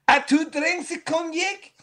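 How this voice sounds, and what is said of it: Mock French accent. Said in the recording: “if you ever want to do an impression of a French person ... how would a vet and Clue do this sentence ... French accents”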